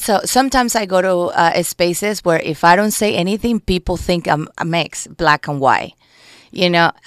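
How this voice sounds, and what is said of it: Latin American Spanish accent, not Mexican. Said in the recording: “my accent... when they hear my accent, then they get very confused because I don't sound Mexican”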